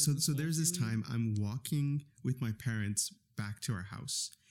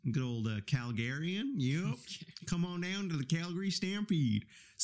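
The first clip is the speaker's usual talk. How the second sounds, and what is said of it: Practiced put-on regional accent. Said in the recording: “Did you practice your accent? ... Better than the first time. ... You practiced.”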